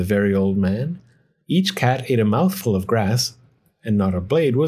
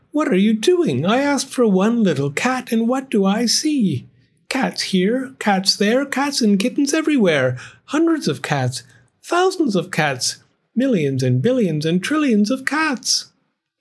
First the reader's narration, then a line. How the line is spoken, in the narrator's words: she cried